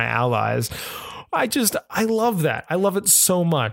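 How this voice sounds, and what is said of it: Usual voice. Nothing is said of it.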